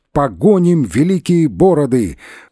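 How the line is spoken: Shouting crowd. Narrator (Russian): поляки кричали

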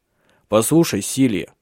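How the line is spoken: Stern. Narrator (Russian): сказал он строго

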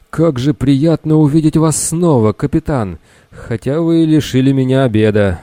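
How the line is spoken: Bully exhaling words. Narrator (Russian): выдохнул задира

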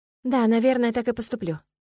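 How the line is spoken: Sighing reply. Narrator (Russian): вздохнула в ответ

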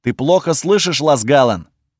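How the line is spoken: Barking. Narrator (Russian): гаркнул на меня Кейнич

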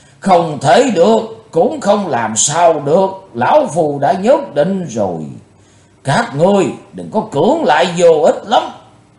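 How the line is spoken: Thunderous roar. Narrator (Vietnamese): Lão tà nói như trời gầm

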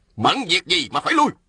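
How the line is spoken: Sharp shout. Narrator (Vietnamese): Ôn Phương Ngô quát lên

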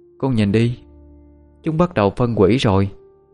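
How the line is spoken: Child, after a sigh. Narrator (Vietnamese): Thằng bé thở dài một hơi, sau đó chỉ tay vào cánh tay của cái xác U Két mà nói

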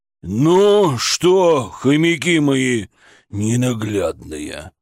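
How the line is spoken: Growl. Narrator (Russian): Прорычал Шаповалов

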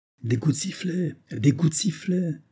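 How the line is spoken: Exclaiming. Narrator (French): s'écria Banks

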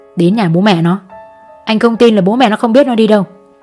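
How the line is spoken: Hissed through teeth. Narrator (Vietnamese): Chú Đại rít qua kẽ răng

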